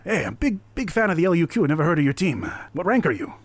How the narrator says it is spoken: they all eagerly shake your hands and be like

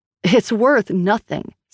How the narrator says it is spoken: snapped Grace

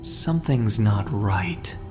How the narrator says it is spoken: muttered

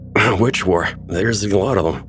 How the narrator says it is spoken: slurred

